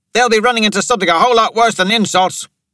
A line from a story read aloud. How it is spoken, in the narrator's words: Shekhar shouted